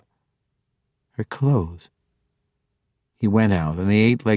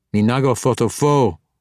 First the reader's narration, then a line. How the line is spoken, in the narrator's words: the orc snapped